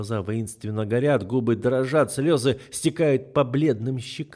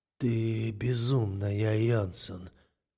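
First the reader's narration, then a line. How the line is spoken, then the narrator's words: Hoarse. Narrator (Russian): хрипло говорю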